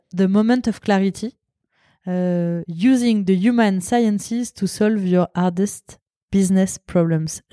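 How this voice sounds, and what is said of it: English spoken with a French accent. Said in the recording (French): “J'espère que tout le monde a apprécié mon accent.”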